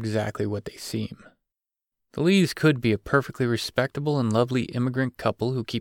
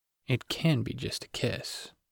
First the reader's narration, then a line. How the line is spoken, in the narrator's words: he murmured